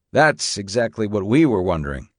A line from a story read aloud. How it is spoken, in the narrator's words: said Jorgensen